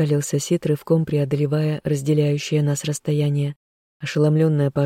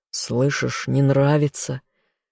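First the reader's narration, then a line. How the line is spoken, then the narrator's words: Hoarse. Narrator (Russian): вновь хрипло произнес он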